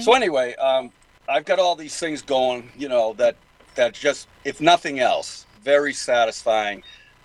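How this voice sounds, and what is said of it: Boston accent. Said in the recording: “excuse my Boston accent”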